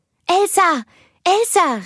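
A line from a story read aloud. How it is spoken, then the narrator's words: Called out. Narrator (German): rief sie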